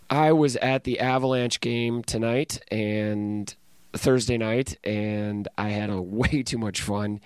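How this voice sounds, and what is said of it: Strained, worn-out speaking voice. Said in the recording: “Please excuse my voice in the introduction here and in the outro ... so now I can't talk”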